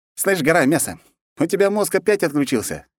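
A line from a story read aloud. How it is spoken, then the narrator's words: Cheerful guffaw. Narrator (Russian): весело загоготал Гермес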